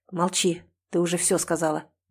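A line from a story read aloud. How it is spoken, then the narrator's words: Rude command. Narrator (Russian): грубо приказывает он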